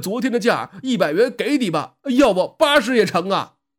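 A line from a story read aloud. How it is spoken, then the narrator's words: Reluctant shout. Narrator (Chinese): 空忙了一场 不由衷的喊呐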